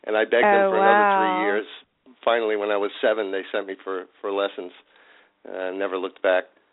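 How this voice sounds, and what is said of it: East Coast New York accent. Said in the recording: “I detect a little bit of an East Coast accent there... I haven't lost it yet... I grew up in Staten Island, New York”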